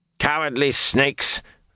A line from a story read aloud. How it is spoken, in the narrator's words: Geron barked